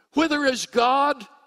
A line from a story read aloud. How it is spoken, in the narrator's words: he cried